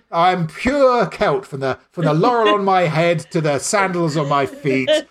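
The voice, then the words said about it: Impression of a Labour Party sellout. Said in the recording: “my impression of a Labour Party sellout”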